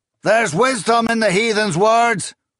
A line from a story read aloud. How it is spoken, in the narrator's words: Sobbin shouted over the rumble